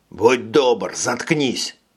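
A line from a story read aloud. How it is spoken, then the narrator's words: Hissing. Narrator (Russian): прошипел Курт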